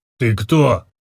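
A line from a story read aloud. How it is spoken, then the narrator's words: Rough sober question. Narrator (Russian): грубо спросил гном, мгновенно протрезвев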